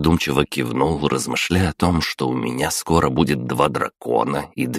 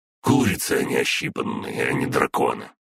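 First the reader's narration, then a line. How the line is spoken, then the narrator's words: Grumbled. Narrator (Russian): проворчала Фая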